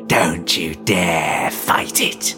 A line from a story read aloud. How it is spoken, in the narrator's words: hissed